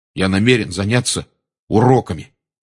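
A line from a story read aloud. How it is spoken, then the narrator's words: Angry announcement. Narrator (Russian): сердито объявил Рон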